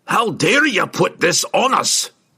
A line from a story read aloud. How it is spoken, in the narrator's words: he roared at Regis